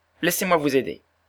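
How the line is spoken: Exclamation. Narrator (French): s'écria-t-il

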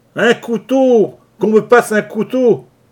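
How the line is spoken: Shouting. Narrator (French): criait Leach

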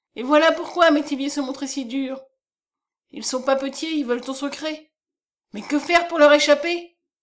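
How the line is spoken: Exclamation. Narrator (French): s'écria Madame Chardon

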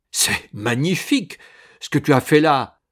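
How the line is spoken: Exclaiming. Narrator (French): s'écria-t-il

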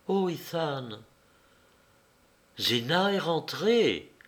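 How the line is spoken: Murmured. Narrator (French): murmura-t-elle

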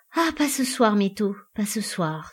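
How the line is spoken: Breathy whisper. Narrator (French): souffla Jean

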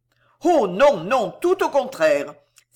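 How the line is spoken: Heartfelt exclamation. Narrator (French): s'écria avec un grand élan de cœur

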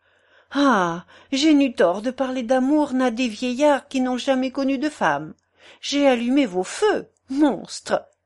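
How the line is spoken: Exclaimed. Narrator (French): s'écria-t-elle

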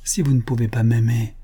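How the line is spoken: Murmur. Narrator (French): murmura-t-il

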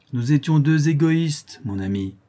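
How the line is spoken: Plain. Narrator (French): répondit-elle

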